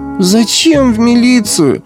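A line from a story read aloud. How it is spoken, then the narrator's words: Pleading. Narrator (Russian): взмолился Толя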